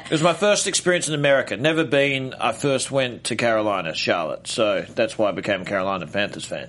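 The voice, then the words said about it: Australian accent. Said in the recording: “you bring in the Australian guys ... I've been in America 12 years. I haven't lost the accent.”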